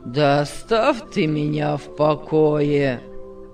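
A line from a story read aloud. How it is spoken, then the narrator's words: Said gloomily. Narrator (Russian): сказал мрачно Павел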